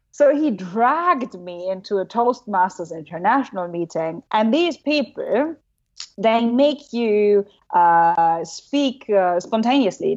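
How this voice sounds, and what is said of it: German accent. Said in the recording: “I'm German. You know, my accent sucks”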